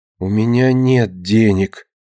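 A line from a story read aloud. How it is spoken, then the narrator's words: Quiet, horrified. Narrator (Russian): с ужасом, глядя на него, тихо говорит Динка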